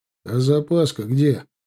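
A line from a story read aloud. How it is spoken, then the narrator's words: Snort into phone. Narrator (Russian): хмыкнул в трубку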